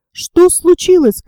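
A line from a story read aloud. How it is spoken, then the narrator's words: Shout. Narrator (Russian): крикнул Роберт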